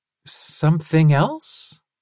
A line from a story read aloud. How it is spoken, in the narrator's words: Linus asked nervously